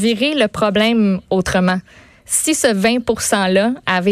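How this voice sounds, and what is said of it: Usual voice. Nothing is said of it.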